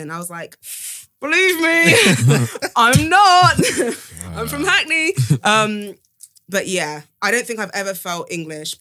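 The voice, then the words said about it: British accent. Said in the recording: “you can hear my accent before I, like, do anything else. You can hear that I'm British”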